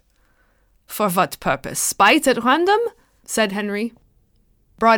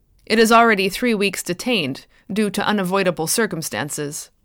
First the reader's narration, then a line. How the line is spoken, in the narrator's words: Broadhead said gravely